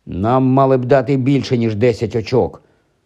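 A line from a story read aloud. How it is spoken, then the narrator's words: Displeased grumble. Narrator (Ukrainian): невдоволено буркнув Рон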